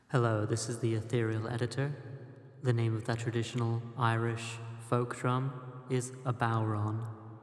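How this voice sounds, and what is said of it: Special announcer character voice. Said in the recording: “I get to do the voice.”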